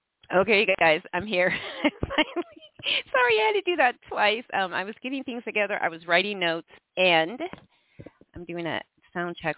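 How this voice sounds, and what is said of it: Stuffy, congested voice from cold. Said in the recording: “I have a cold, ... So if I sound a little, you know, stuffy”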